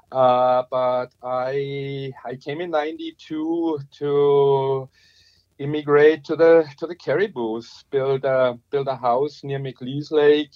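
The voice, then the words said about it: Strong German Bavarian accent. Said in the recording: “your accent gives away the fact that you're not originally from the Cariboo ... I still have a strong accent. And that's, yeah, due to coming from Germany, from the Bavarian Alps”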